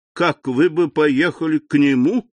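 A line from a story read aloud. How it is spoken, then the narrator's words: Laughing. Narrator (Russian): сказал, смеясь Дебре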